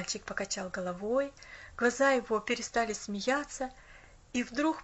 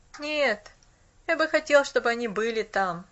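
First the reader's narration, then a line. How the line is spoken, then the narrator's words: Wistful sigh. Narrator (Russian): тоскливо вздохнул он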